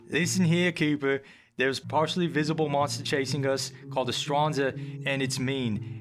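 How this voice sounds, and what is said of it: Put-on Australian accent. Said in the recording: “It kind of goes into Australian, though. ... Great accent.”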